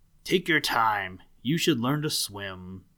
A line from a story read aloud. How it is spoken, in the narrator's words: A gruff voice growled